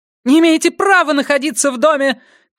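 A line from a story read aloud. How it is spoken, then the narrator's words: Shout. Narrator (Russian): крикнула она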